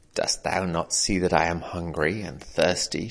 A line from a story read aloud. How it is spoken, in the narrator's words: snapped